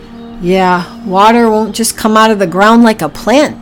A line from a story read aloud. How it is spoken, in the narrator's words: sighed Priscilla